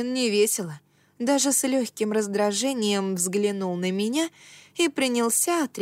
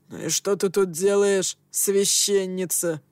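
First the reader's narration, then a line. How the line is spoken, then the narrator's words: Grumble. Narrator (Russian): проворчал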